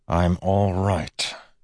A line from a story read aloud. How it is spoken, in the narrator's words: he said to Steris through clenched teeth